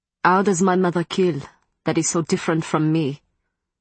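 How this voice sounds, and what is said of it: Strong French accent, fluid hypnotic voice. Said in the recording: “Matthew's French accent was stronger, and his voice sounded even more fluid and hypnotic than usual.”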